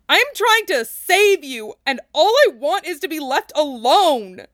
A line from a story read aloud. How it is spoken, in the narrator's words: Jamavan shrieked again, making most people wince and cover their ears